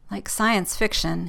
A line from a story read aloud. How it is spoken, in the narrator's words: he mutters